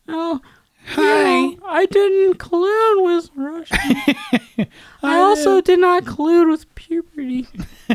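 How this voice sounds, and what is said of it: Squeaky imitation of another person's voice. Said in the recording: “He has like the weirdest squeaky voice.”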